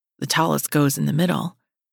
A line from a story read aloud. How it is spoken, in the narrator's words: muttered